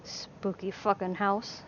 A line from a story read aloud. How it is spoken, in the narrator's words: he growled